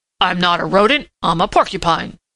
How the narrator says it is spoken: grunted Prickly Porky indignantly

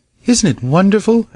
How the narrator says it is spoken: exclaimed a girl

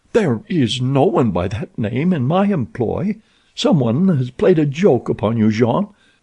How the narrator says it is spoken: Olga laughed

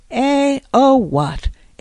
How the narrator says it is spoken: exclaimed old Mr

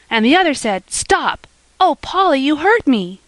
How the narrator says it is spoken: she cried, as Polly held her so tightly she could hardly breathe

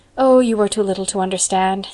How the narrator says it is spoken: said Anne

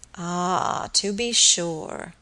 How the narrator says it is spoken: muttered Mr

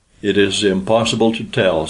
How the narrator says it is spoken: said Alma

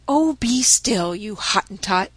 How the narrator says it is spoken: snapped Polynesia

